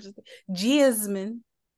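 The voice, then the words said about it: Exaggerated Philly accent. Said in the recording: “You don't like how we say that with our accent, because that was exaggerated ... the Philly area accent ... that was exaggerated”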